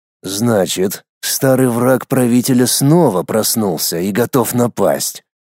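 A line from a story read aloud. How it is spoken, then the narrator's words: Gloomy words through teeth. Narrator (Russian): хмуро процедил Абу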